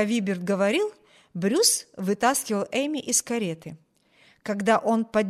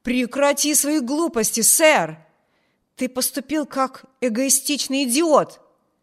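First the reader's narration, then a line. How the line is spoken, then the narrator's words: Passionate exclamation. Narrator (Russian): воскликнул Брюс, охваченный страстью, которой он никогда не поддавался во время своего детства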